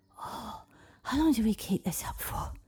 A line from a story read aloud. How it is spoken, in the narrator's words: wheezed Avalon under her breath